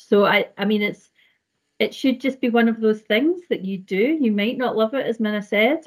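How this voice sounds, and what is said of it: Scottish accent. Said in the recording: “I'm Scotland, as you can hear. Scottish, you can hear from my accent”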